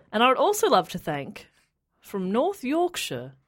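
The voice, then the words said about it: Slight put-on Yorkshire accent. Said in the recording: “went for a slight accent there ... Yorkshire.”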